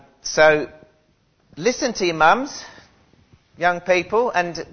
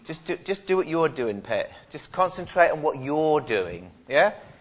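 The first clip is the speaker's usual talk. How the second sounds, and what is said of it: Weak put-on Geordie accent. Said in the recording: “I'm trying to do a Geordie accent pathetically”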